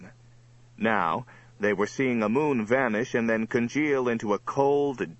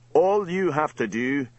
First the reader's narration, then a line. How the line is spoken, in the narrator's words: Sir Robert bellowed at them